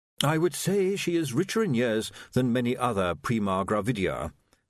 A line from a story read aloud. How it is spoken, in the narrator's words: said Willikins smoothly